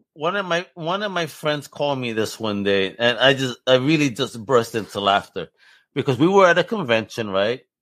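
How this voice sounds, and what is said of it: New York accent. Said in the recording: “my New York accent, which doesn't sound pleasant”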